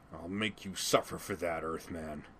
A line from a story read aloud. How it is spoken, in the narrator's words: snarled